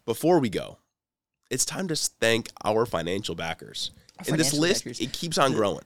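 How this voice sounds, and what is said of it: Sick, cold-affected voice. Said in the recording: “I'm sorry if you can hear it in my voice. I've been sick the last few days. ... Got a little cold.”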